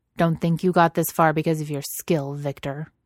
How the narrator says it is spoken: says harshly

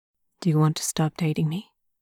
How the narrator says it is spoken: Lenchen asks

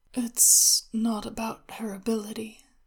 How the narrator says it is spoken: Xin Fei said, drowsily

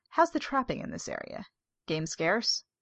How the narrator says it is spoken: Howitt sighed

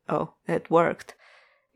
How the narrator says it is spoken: Gabriel says stiffly

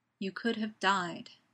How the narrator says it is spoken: says Gaius gravely

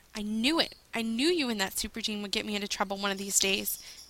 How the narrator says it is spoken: snarled

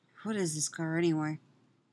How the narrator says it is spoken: Ray murmurs back, a little defensively

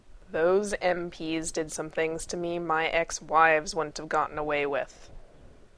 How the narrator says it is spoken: Gibbs growled at him

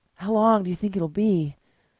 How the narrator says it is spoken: Gabrielle panted

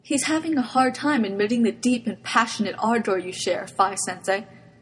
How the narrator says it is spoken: Tamaki said sadly

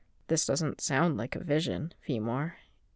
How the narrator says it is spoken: in a quiet, careful voice

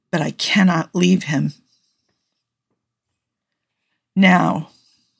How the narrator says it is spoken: in a voice gone whisper soft with revelation, Spock said

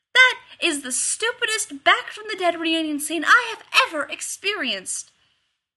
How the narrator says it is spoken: Rodney yelled down the gorge

